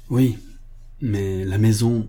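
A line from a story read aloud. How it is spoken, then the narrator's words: Sullen tone. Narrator (French): dit Mary d'un ton si maussade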